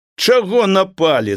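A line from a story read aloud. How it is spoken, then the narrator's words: Goat shouting. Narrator (Belarusian): закрычала каза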